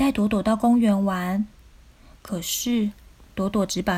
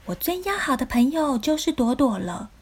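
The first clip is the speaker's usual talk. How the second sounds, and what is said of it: Little bunny character voice. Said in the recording (Chinese): “用小兔子的声音说”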